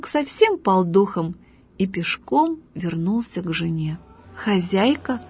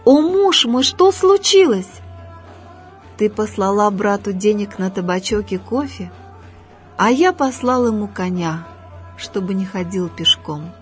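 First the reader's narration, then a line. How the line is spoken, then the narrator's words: Duped man's reply. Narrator (Russian): ответил одураченный турок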